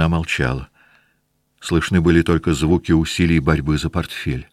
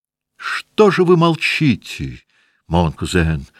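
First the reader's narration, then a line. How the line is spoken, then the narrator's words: Sudden loud cry. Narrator (Russian): Вдруг вскрикнула княжна так громко, что в гостиной услыхали и испугались ее голоса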